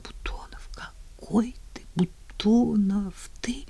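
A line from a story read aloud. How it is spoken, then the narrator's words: Tearful mumbling. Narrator (Russian): Лицо ее было мокрым от слез, и она только бормотала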